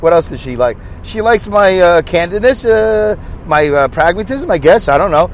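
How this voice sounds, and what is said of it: Brooklyn accent. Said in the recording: “she knows I have a Brooklyn accent ... they like my Brooklyn accent”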